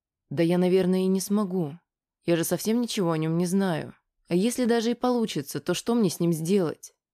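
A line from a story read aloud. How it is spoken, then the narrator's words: Calm reply. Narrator (Russian): спокойно ответила Аня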